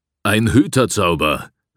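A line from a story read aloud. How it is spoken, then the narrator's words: Shouting over an eerie scream. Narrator (German): rief Dusch und versuchte, den unheimlichen Schrei zu übertönen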